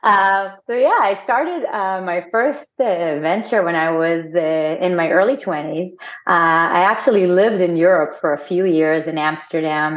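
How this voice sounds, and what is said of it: Israeli accent. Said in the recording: “I'm Israeli for my accent,”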